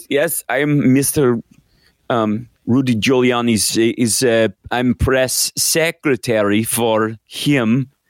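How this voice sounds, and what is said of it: Put-on Ukrainian accent. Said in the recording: “Weird Ukrainian accent, no doubt.”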